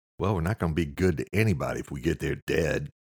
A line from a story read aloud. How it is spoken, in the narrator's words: Eamon said